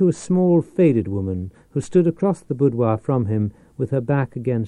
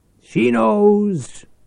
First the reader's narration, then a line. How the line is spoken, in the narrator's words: Quizzard shouted